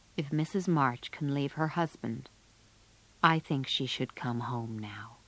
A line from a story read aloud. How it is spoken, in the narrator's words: said quietly